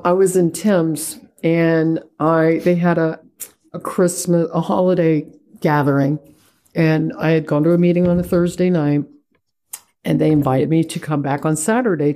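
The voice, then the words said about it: American accent. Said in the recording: “my accent wasn't from, you know, the local area ... oh, you're from America”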